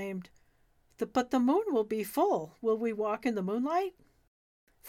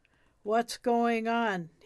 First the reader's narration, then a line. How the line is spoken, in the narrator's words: He growled